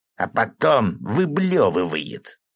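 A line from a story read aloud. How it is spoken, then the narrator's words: Stage whisper. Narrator (Russian): мясник тем же сценическим шепотом закончил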